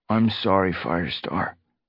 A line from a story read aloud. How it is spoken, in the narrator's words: Bramblepaw murmured